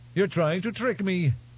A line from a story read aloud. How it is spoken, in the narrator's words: he blurted